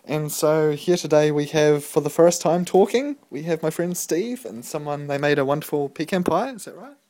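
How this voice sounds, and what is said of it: Congested, deeper than usual voice. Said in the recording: “my voice sounds different because I've got a hell of a head cold ... I feel like I'm sounding like Barry White, but not quite as sexual ... a little bit deeper on the register”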